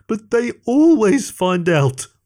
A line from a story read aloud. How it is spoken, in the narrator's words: whined Greg